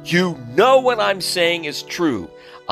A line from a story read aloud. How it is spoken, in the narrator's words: Amjad shouted